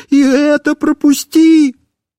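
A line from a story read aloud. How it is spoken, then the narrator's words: Wailing and begging. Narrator (Russian): я снова начинал вопить и умолять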